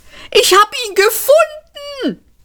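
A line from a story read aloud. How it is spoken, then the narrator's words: Shout. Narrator (German): schrie Seyfert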